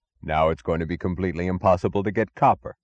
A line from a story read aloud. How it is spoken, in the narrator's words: added, his voice suddenly alive